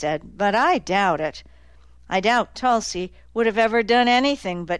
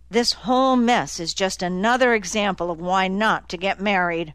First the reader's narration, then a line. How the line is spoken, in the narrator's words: Stokes grumbled